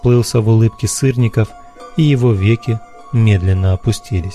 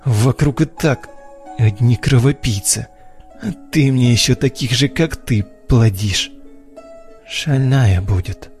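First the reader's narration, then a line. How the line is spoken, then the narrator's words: Drowsy mumble. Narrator (Russian): пробормотал Сырников, не открывая глаз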